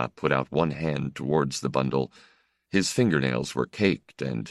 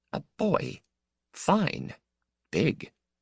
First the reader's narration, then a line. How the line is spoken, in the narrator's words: she whispered sharply